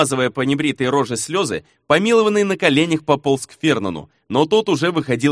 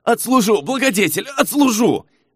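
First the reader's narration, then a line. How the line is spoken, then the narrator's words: Bellowing. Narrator (Russian): орал счастливчик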